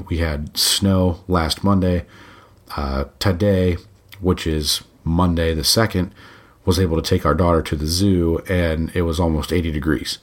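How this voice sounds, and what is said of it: Voice affected, not normal. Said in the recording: “apologize for my voice ... it's wreaked havoc on my allergies”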